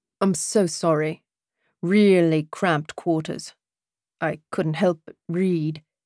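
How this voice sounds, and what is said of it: British accent character voice. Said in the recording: “that lovely British accent.”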